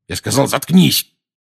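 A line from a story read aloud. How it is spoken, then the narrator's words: Barked. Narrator (Russian): рявкнул Дадли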